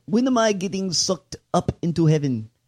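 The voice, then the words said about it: Put-on Jordanian accent. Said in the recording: “That's how I sounded. That's my Jordanian.”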